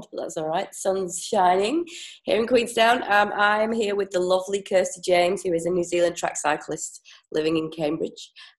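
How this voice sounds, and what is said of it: Slightly congested voice. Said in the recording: “I've got a little bit of a cold,”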